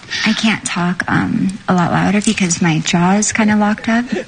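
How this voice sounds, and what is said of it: Very soft, quiet speech. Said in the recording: “I can hardly hear you. Why are you talking so soft?”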